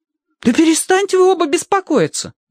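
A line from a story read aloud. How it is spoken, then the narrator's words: Exclamation. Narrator (Russian): воскликнул Киврин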